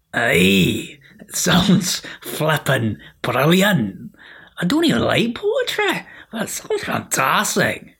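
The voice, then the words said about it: Enthusiastic put-on Scottish accent. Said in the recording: “enthusiastic Scottish ... doing the voice.”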